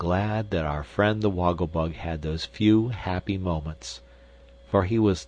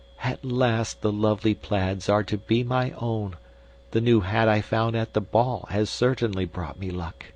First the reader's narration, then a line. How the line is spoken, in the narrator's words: happy, with a light heart, murmuring to himself